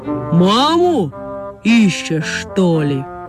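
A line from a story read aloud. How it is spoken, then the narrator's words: Deep-voiced question. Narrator (Russian): спросила медведица густым голосом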